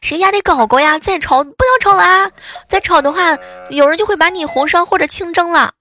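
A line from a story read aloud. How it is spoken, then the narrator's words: Loud shouting. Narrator (Chinese): 对着对面就喊大喊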